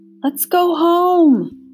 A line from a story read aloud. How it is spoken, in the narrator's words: He put his face close to Hester's ear and shouted over the noise